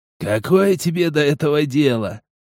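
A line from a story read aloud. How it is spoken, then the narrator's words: Old man's snort. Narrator (Russian): хмыкнул старик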